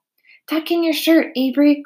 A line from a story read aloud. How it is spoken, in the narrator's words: cried Mrs